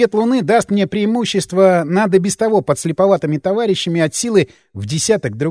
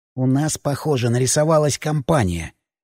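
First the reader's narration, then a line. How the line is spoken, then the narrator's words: Whisper. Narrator (Russian): прошептал я ткачу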